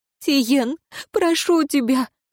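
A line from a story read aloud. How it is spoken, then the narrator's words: Sobbing woman. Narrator (Russian): всхлипнула женщина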